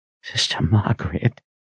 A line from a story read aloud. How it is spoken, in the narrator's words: he whispered in a shaky voice